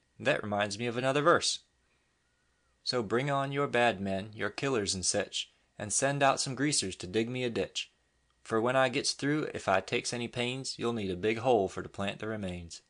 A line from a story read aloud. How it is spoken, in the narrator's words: exclaimed Pete